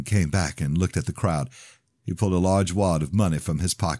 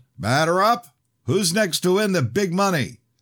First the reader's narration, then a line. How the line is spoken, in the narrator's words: The old man yelled